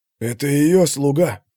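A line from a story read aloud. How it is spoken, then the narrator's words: Loud whisper. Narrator (Russian): громко прошептал кто-то за ее спиной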